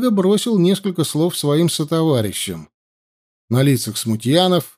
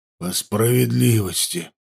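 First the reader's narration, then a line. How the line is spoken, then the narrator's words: Wheezing. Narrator (Russian): прохрипел Варлыга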